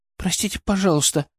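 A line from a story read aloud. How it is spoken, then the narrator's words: Guilty whisper. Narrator (Russian): начала она виноватым шепотом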